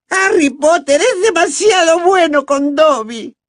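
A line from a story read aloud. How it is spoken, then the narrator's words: Tearful shrieking. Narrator (Spanish): chilló, secándose las lágrimas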